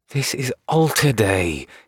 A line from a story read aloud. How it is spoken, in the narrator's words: he growled